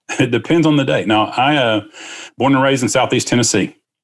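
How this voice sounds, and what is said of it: Southern US Tennessee accent. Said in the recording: “Where's that accent from? ... Tennessee is interesting because half the folks have an accent”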